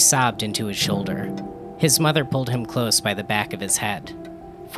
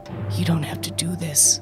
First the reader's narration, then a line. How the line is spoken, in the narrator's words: he whispered